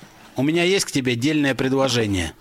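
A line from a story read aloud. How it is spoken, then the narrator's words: Plain. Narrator (Russian): сказал он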